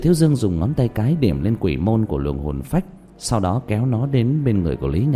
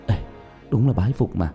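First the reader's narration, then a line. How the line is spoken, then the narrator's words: Whisper. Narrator (Vietnamese): Lý Vĩ thì thào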